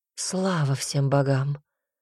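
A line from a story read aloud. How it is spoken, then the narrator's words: Relieved exhale. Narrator (Russian): выдохнула мачеха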